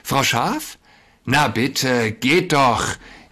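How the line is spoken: Called out. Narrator (German): rief da der Wolf

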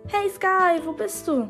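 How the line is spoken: Calling. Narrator (German): rief da auch schon Lenis Stimme

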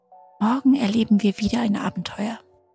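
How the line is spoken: Chick whispering. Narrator (German): flüsterte das vierte Küken

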